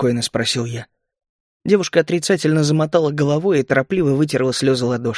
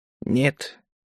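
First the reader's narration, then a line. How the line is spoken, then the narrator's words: Quiet. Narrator (Russian): тихо ответил я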